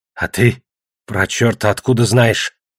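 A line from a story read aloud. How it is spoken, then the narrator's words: Weaker, less angry question. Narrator (Russian): Значительно слабее и уже не так зло спросил Песотька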